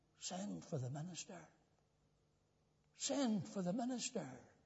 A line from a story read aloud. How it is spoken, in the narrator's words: whispered again